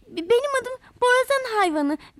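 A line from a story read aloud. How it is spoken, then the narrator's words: Stammering. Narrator (Turkish): diye kekelemiş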